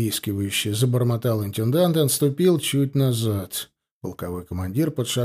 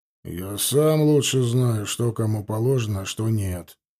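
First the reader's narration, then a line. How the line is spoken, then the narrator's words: Displeased grumble. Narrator (Russian): недовольно буркнул Эристов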